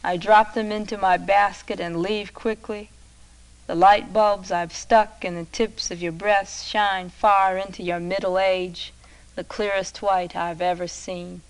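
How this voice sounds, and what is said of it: Hoarse, dry voice. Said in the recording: “I'm very hoarse from the medicine. I'm dry.”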